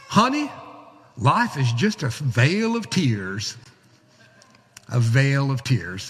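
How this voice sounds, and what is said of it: Imitated Southern Alabama accent. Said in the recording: “Montgomery, Alabama ... if you didn't understand the accent”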